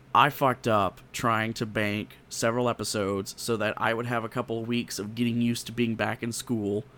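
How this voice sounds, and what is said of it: Worn-out, strained voice. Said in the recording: “my voice is shot”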